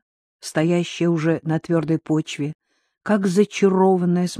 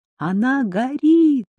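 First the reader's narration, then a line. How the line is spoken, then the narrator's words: Girl shouting. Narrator (Russian): крикнула девушка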